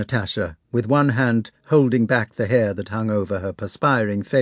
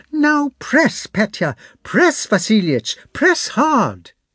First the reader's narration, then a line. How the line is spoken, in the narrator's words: she cried